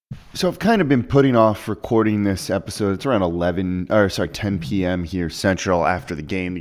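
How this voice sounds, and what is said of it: Subdued, emotionally heavy voice. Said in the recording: “you can probably hear it in my voice a little bit”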